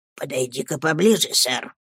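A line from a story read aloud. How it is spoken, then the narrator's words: Whisper. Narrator (Russian): прошептал мистер Крикль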